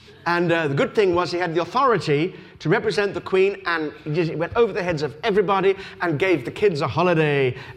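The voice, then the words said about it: English accent. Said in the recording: “I'm the one who's mocked. with my English accent.”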